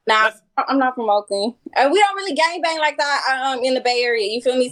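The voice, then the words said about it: Bay Area slang accent. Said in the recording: “you see how quick her accent came out? Yeah, the accent.”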